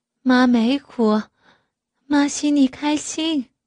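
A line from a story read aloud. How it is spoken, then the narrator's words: Tearful older woman. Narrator (Chinese): 岳母依旧带着哭腔说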